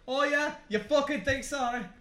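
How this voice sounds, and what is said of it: Put-on Irish accent. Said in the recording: “every time I do the Irish accent”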